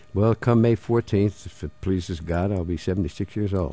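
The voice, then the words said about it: Philadelphia accent. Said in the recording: “we can hear the Philadelphia accent that you have. You grew up in South Philly.”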